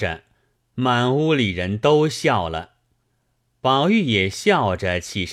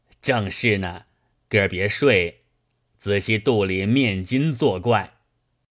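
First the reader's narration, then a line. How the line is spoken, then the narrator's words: Laughing. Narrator (Chinese): 王一贴笑道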